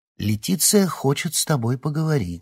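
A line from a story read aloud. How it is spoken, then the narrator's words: Calm repetition. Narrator (Russian): спокойно повторил Гордей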